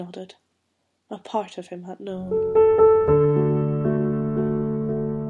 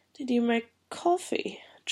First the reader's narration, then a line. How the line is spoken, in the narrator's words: John asked, his voice still sleepy